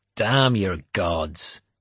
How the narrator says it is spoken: Finan said savagely

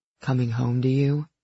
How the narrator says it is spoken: He murmured

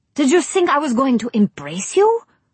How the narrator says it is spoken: she demanded sharply

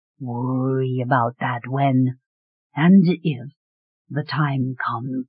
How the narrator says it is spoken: Treyvan said quietly

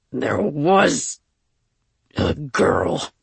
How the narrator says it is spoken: he rumbled, sounding reluctant and annoyed at the same time

